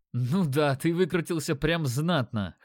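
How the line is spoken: Chuckling. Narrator (Russian): хохотнул он

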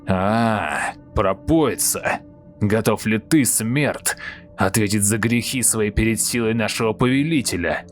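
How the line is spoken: Angry growl. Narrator (Russian): Гневно прорычал Козоголовый

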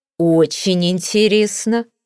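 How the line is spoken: Snorting. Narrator (Russian): фыркнула та

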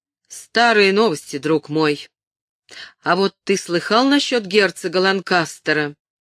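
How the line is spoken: Loud. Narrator (Russian): Эндрю громко сказал

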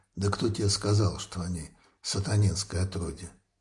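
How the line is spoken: Quiet speech. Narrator (Russian): тихо промолвил Клаус

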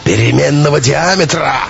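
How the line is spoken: Bellowing like wounded buffalo. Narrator (Russian): раненым буйволом взревел Белов

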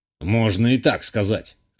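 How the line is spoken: Old man's snort. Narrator (Russian): хмыкнул старик

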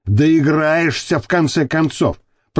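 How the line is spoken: Growl. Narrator (Russian): прорычал волк

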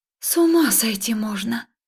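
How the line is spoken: Breathless exhale. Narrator (Russian): выдохнула я

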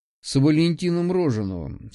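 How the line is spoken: Calm. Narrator (Russian): спокойно сказал я

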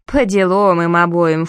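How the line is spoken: Snort. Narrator (Russian): фыркнула Мири

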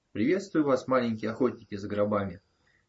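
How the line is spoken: Cheerful exclamation. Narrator (Russian): Весело воскликнул он

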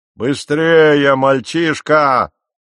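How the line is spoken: Shrill shout. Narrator (Russian): визгливо крикнул он

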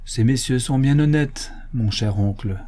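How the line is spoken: Plain answer. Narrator (French): répondit Mathurin

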